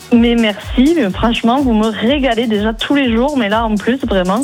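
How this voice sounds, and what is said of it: Toulouse southern French accent. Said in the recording (French): “Ça, c'est l'accent toulousain.”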